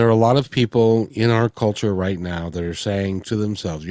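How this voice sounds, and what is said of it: Usual voice. Nothing is said of it.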